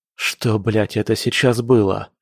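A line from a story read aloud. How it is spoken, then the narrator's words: Hoarse question. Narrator (Russian): спросил хрипло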